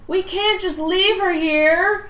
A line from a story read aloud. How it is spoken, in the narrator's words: Riley screamed